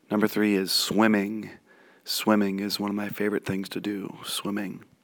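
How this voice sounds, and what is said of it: Hoarse, strained voice. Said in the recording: “I have been doing too much yelling, that's why I lost my voice”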